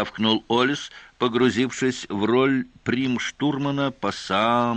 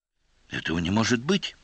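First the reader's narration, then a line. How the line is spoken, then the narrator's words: Whisper. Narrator (Russian): прошептала Кана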